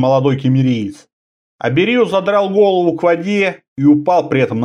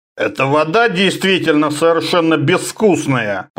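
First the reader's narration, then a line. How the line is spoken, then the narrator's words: Grumbling. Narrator (Russian): проворчал он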